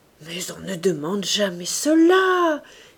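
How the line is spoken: Exclaimed. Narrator (French): s'écria-t-elle

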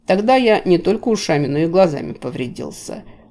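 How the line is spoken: Wry snort. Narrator (Russian): хмыкнул мэтр Килл

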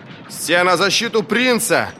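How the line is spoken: Piercing shout. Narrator (Russian): снова пронзительно крикнул Вест

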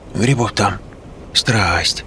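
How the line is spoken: Old woman whispering. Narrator (Russian): продолжала нашептывать бабка

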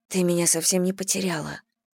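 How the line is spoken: Whisper in ear. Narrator (Russian): прошептала Элли на ухо Мэдисон

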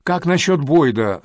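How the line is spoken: Irritated question. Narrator (Russian): раздраженно спросил Линкольн Райм

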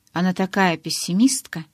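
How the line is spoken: Muttering under breath. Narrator (Russian): пробормотал Эммет себе под нос

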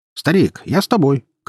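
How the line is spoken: Shout. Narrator (Russian): крикнул Саша

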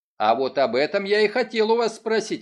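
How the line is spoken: Plain. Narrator (Russian): ответил Баррингтон

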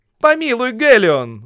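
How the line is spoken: Group shouting. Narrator (Russian): закричали они

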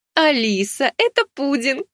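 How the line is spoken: Laughing woman. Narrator (Russian): Рассмеялась владелица магазина

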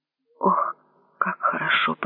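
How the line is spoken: Muttering. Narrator (Russian): пробормотал он

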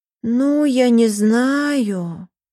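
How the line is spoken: Drawling. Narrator (Russian): протянула Юлька

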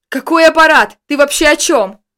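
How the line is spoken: Yelling at full voice. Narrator (Russian): во весь голос заорал я

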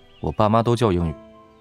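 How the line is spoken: Casual, lazy smiling voice. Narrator (Chinese): 他微微勾唇一笑，声音依旧散漫无比

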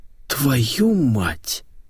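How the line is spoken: Breathed out. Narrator (Russian): выдохнул Митяев

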